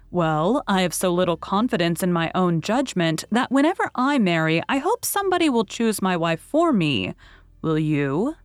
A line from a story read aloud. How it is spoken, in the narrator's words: He said in a lively tone